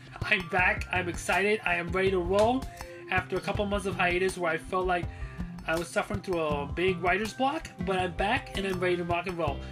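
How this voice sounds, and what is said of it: Energetic, excited speaking voice. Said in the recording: “You can hear the energy in my voice.”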